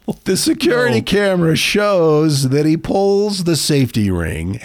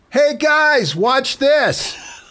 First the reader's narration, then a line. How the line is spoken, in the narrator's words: yells